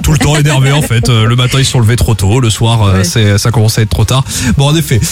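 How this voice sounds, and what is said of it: Put-on southern French accent. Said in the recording (French): “Pourquoi je prends cet accent du sud?”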